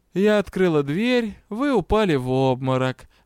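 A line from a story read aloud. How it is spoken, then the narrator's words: Lazy lie. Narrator (Russian): лениво солгала леди Тьер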